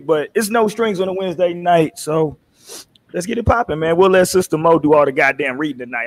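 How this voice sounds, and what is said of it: Rough, strained sick-sounding voice. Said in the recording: “I'm playing goddamn Under the Weather today... My voice is a little fucked up”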